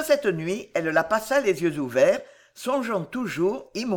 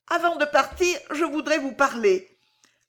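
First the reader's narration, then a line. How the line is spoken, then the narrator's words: Trembling, emotional stammer. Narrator (French): balbutia Violetta avec une émotion qui la faisait trembler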